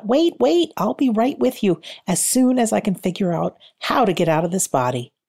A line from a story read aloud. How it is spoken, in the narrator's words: she called out